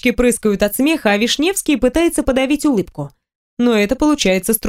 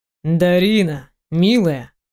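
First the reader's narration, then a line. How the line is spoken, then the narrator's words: Unctuous, sugary voice. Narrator (Russian): произносит Павел елейным голосом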